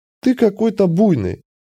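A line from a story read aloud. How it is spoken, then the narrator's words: Laughing female. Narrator (Russian): засмеялась эльфийка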